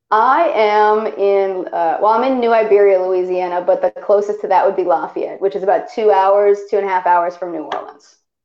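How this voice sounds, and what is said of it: Slight drawl. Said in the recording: “I detect, even when you sing, like a little drawl ... You definitely developed a drawl”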